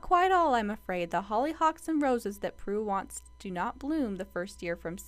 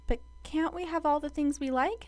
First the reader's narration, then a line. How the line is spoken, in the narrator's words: asked Davy anxiously